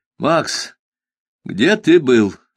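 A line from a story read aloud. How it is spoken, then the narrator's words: Stern question. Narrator (Russian): строго спросил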